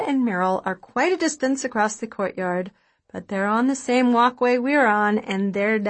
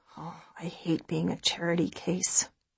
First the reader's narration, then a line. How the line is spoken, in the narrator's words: I grumble